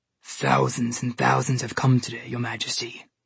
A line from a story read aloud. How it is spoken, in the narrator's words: the polar bear said in a deep, growly voice